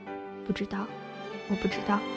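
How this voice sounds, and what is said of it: Quiet, soft whispered line. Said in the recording (Chinese): “小声”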